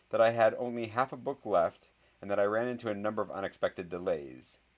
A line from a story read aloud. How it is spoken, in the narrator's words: said the boy who lived in a clear voice